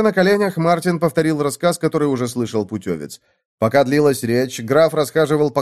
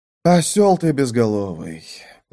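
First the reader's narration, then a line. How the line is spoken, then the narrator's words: Weary exhale. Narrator (Russian): устало выдохнул граф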